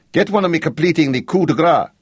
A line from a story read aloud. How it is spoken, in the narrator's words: he shouted at Gino